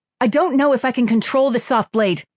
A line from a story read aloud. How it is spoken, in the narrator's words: Kira blurted out